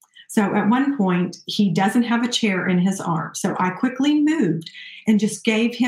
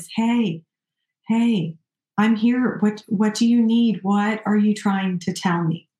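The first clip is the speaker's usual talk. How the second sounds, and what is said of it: Calm, soothing voice. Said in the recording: “speaking in a calm voice.”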